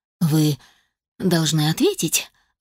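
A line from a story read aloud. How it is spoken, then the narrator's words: Timid, throat-clearing priest. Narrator (Russian): робко заявил отец Эммет, еще сильнее покраснев и прокашлялся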